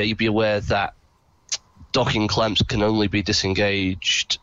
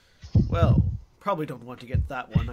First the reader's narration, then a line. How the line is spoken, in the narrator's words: I mutter